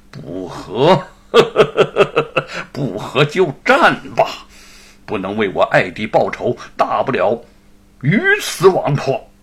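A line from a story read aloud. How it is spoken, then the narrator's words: Menacing laugh. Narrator (Chinese): 严嵩心下杀机涌现，哈哈一笑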